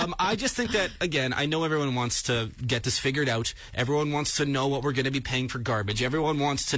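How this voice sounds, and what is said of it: Usual voice. Nothing is said of it.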